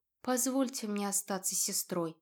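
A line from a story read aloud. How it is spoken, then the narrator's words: Quiet. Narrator (Russian): тихо произнесла сестра Эвины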